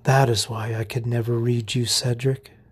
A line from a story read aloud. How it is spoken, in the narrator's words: she whispered